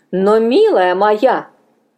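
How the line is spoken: Firm objection. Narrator (Russian): возразила Мина и решительным тоном

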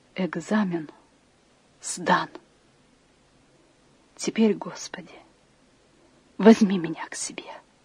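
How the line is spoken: Quiet whisper. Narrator (Russian): она тихо прошептала

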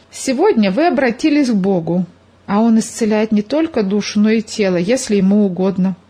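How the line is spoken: Plain. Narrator (Russian): сказал Иван Павлович

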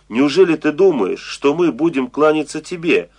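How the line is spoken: Angry group question. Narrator (Russian): сердито спросили они

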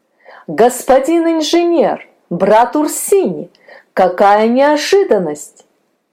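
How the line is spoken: Joyful surprised exclamation. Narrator (Russian): Радостно и удивленно воскликнул Петр

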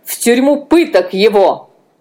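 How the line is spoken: Loud scream. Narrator (Russian): Анна громко закричала

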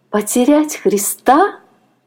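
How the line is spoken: Exclaiming. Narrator (Russian): воскликнула она

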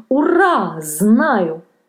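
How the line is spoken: Joyful shout. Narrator (Russian): радостно закричал он

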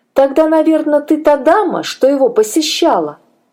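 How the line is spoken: Lively exclamation. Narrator (Russian): воскликнула оживленно Шарлотта

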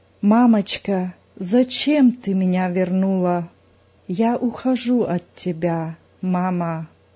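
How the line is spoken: Barely audible. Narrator (Russian): Та едва слышно проговорила

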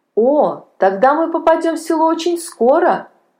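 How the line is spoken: Happy boy. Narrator (Russian): радостно сказал мальчик

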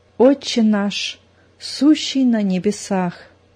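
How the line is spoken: Tense whisper. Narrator (Russian): Зина зашептала, напряженно сморщив лоб

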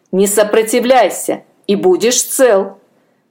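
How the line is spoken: Rough mutter. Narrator (Russian): пробурчал человек грубо

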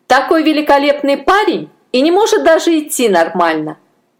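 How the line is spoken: Laughing and laughing. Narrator (Russian): Пи-Ай смеялась и смеялась

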